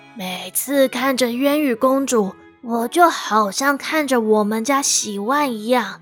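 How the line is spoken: Old man, slow. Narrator (Chinese): 老城主缓缓开口说

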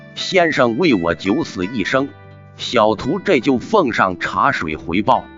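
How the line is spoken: Smiling. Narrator (Chinese): 月孤雁笑道

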